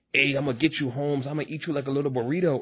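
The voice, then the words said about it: Stereotypical Mexican accent. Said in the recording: “the typical, stereotypical Mexican accent”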